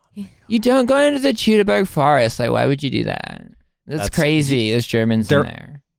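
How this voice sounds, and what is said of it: Southern California college girl accent. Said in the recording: “There were like half a dozen women who sounded exactly like that in my undergraduate classes ... I went to college in Southern California ... This was the common accent”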